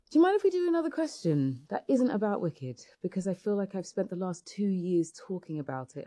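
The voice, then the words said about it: Speaker with a noticeable accent. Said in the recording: “I can just listen to her talk all day. I just like that accent.”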